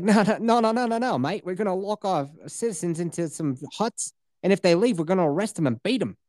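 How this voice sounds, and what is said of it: Put-on Australian accent. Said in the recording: “Good Australian accent just then.”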